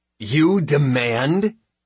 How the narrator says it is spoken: I replied in an intentionally offended voice

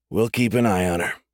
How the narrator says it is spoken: Salino said

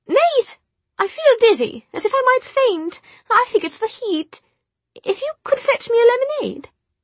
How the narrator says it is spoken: In a state of absolute horror, Tessa sputtered

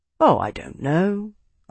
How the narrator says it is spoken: Arnos said, his tone conversational

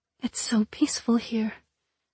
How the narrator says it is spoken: Princess Anessa murmured

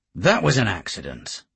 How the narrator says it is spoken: said Mark, irritably

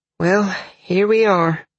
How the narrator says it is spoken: Dalen sighed

